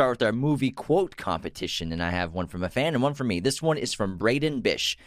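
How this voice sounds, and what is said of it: Usual voice. Nothing is said of it.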